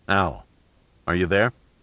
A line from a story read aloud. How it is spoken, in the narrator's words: He called up softly